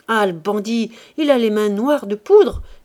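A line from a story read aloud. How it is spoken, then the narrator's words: Man exclaiming. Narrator (French): s'écria l'homme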